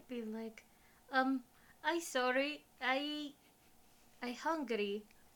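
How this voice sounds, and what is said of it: Nervous character voice with accent. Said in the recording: “he's like nervous ... Just do it sort of like in an accent.”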